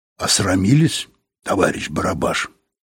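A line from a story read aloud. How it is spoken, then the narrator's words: Quiet. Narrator (Russian): сказал Юрковский негромко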